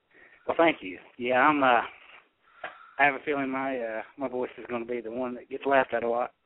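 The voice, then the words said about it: Western North Carolina accent. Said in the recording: “the good old Western North Carolina accent ... you do have a nice Western North Carolina accent.”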